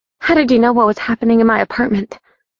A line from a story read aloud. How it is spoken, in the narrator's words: I blurted, pushing through the sentiments that were taking control of me